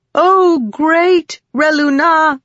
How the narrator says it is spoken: Rissen said loudly

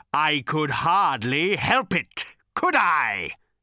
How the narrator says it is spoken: He bellowed

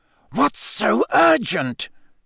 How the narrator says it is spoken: Snape hiss at Karkaroff

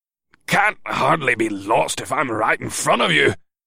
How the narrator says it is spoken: Sagar grumbled

